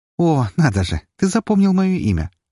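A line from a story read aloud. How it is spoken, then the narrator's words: Laughing. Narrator (Russian): рассмеялась она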